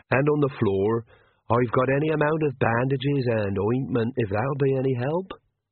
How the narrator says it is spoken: said Hodgesarg cheerfully

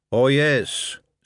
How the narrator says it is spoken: said the Marquis

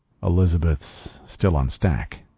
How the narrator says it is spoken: I said quietly

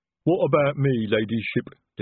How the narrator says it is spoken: Detritus rumbled

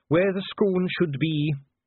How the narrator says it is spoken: said Dee gloomily

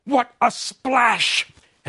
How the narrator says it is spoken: Alice, Anne, and Meg exclaim

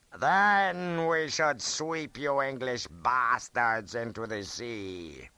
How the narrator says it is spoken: he roared

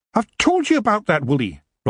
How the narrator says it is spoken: Rob snapped

